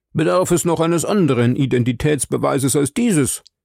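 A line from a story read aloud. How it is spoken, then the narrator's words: Triumphant call. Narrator (German): rief Sir Frank triumphierend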